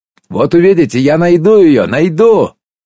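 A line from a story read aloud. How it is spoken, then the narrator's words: Angry shout. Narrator (Russian): крикнул я ей вслед с какой-то даже злостью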